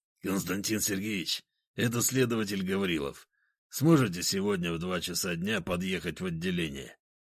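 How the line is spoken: Hoarse voice. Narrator (Russian): послышался хриплый голос

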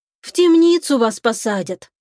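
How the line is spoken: Sighing. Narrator (Russian): вздохнула

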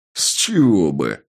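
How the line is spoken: Spiteful laughter. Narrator (Russian): Я злобно расхохотался

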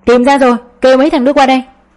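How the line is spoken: Shouting. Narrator (Vietnamese): Một người lạ mặt la lên

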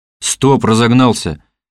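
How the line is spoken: Irritated shout. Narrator (Russian): раздраженно окрикнул Лиманский

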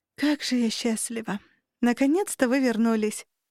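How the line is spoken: Joyful breathless exclamation. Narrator (Russian): радостно выдохнула Наташа, лучась ничем не замутнённой радостью

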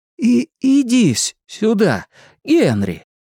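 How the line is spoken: Friendly call. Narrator (Russian): доброжелательным голосом позвал Билл

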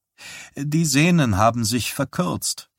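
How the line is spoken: Plain. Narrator (German): sagte Wysack

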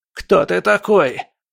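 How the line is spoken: Hoarse croak. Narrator (Russian): прохрипел Биба

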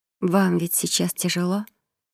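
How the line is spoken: Almost tender question. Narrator (Russian): почти ласково спросила она

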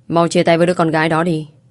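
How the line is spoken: Loud parents. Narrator (Vietnamese): bố mẹ Hoàng Bách lớn tiếng rồi nói

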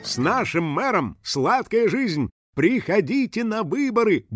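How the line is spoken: Cheerful announcer voice. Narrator (Russian): бодро заявил диктор

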